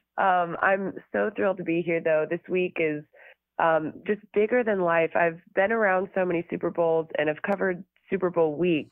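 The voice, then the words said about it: Hoarse, strained, fading voice. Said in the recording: “I'm losing my voice ... I was just yelling for about 2 hours straight”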